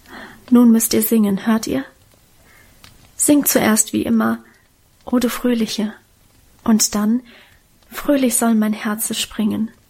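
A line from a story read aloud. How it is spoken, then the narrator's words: Whisper. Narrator (German): flüsterte sie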